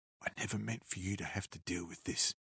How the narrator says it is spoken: she said quietly

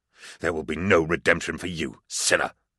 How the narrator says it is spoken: I spat into his bloody face

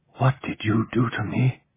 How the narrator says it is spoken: Ramon whispered, horror-struck

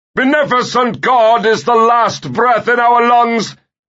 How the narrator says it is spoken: he shouted

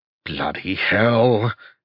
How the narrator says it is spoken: he growled

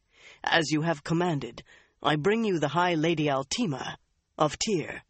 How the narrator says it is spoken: he said in a suddenly rough voice

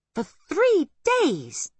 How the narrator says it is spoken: exclaimed Kate

